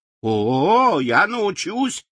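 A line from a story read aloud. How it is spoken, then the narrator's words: Joyful exclamation. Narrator (Russian): радостно вскричал Страшила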